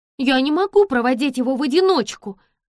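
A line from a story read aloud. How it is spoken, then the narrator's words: Young woman snapping. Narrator (Russian): огрызнулась девушка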